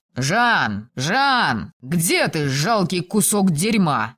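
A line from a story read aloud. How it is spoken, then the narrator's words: Yelling. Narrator (Russian): завопил мастер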